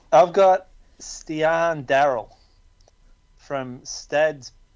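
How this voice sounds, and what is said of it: Put-on accent on a foreign name. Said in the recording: “That's pretty good, actually. That's a good accent there at the end”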